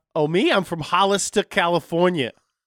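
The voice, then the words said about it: New Jersey accent, Christopher Walken-like. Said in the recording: “You sound like you're from New Jersey... Now you sound like Christopher Walken.”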